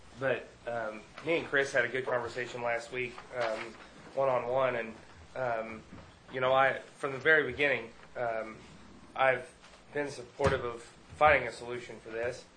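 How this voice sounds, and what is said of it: Voice sounds sick, under the weather. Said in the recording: “Excuse my voice, I'm a little under the weather.”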